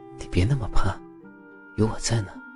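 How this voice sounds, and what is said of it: Speaking softly, in a low voice. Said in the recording (Chinese): “小声的说道”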